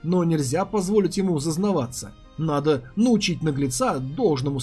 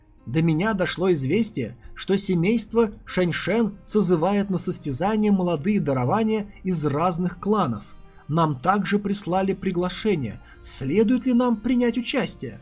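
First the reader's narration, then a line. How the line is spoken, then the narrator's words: Plain. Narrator (Russian): спросил Нехай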